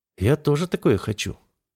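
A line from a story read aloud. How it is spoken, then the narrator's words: Mental whisper. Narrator (Russian): шепнула мне мысленно Алиела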